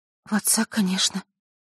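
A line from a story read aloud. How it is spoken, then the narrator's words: Smiling through tears. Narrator (Russian): улыбнулась Василиса сквозь слезы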